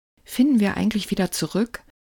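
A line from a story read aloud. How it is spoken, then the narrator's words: Asked fearfully. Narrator (German): fragte er Marie ängstlich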